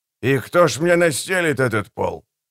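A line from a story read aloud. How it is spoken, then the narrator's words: Perfunctory grumble. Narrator (Russian): для порядка проворчал он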